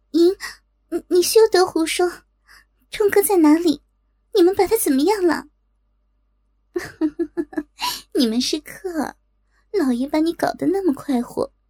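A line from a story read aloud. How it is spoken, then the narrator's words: Trembling angry voice. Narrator (Chinese): 莹莹听他说的荒谬，气得娇躯颤抖，但听他提到令狐冲，忍不住颤声道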